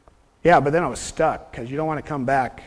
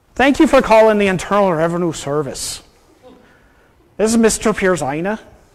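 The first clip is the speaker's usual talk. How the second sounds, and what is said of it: Put-on accent, likely Irish. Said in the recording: “because it's St. Patrick's Day ... speaking in an accent”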